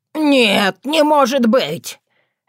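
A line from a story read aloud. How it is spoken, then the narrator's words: Scream. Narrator (Russian): Этот вопль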